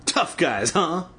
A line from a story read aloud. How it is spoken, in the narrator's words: Bobby sneered